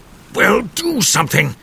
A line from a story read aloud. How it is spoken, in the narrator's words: roared Grandpa